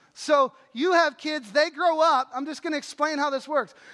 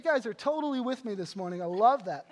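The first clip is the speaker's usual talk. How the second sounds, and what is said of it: Sarcastic delivery. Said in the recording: “that was sarcasm”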